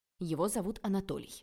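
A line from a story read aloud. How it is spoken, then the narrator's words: Irritated. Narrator (Russian): раздраженно ответил папа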